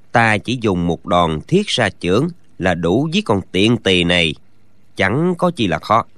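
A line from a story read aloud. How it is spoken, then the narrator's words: Low quiet voice. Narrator (Vietnamese): Gã nhỏ giọng nói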